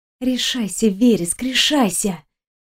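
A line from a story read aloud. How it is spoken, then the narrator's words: Quiet, to herself. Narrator (Russian): Тихо проговорила Виктория сама себе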